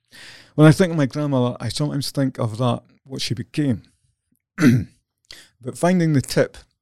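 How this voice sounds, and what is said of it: Voice breaking with emotion. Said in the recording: “my voice is breaking up here a bit... Filling up here.”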